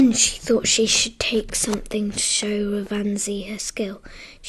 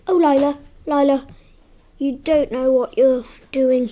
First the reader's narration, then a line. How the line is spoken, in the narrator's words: cried